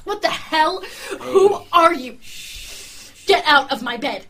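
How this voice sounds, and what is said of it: Screaming. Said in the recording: “you're screaming”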